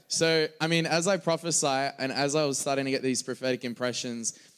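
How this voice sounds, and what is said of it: Australian accent. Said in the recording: “my accent. Is there any, you guys are good with Australian accents,”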